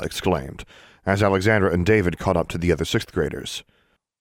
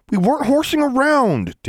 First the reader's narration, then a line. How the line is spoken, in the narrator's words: David snapped